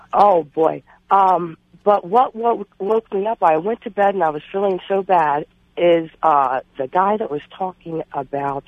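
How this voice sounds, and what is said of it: Congested voice from a cold. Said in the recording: “I have a cold, so I sound a little bad.”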